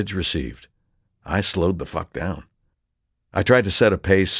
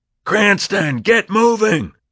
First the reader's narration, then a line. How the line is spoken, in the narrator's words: I learned to endure his yelling